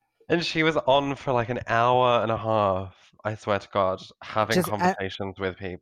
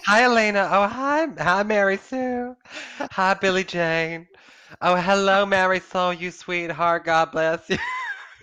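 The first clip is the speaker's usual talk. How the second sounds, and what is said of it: Imitated Southern belle accent. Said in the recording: “that's not her accent whatsoever ... She probably is of a Southern nature ... she's a Southern belle”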